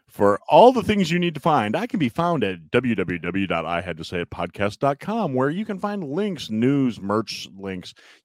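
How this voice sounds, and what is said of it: Put-on radio announcer voice. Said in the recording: “put on my radio voice”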